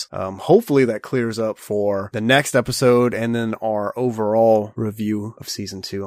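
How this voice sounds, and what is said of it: Sick, rough-sounding voice. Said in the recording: “I'm sick and my voice is a little gross”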